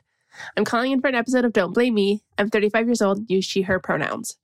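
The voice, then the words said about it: Sick-sounding voice. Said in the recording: “I apologize for my voice. I'm getting over a cold”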